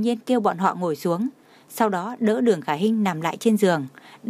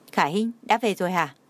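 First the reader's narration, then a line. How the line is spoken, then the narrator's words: Smiling. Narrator (Vietnamese): bọn Trang Hạo Nhiên mỉm cười nói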